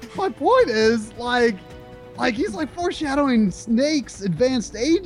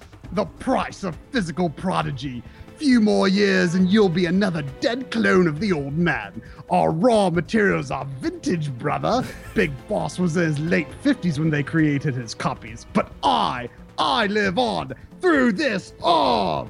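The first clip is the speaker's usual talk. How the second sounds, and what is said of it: Impression of Liquid Snake. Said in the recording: “I don't know if I do a good liquid imitation”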